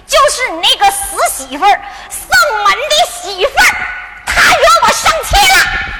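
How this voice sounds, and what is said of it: Shouting, loud angry voice. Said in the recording (Chinese): “你别喊了”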